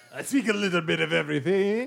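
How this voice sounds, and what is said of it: Put-on character accent. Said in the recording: “Oh, now you do have an accent.”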